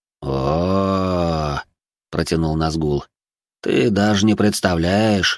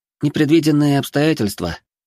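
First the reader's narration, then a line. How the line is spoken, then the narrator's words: Boy's sigh. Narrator (Russian): вздохнул мальчишка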